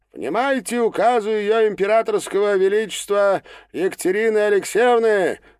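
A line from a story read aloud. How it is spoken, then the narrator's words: Loud proclamation. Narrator (Russian): громко произнес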